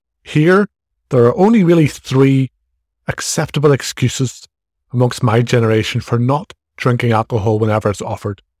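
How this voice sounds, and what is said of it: Irish accent. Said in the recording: “as you can probably tell from my accent, I'm in Ireland”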